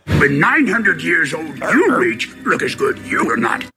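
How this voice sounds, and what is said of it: Yoda character voice. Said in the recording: “That's Yoda.”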